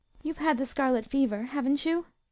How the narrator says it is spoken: Beth asked quickly

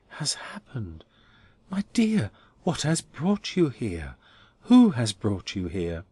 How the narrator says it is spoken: he added soothingly

